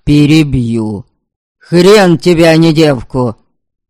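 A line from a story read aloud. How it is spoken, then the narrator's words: Barked. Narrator (Russian): рявкнул Ждислав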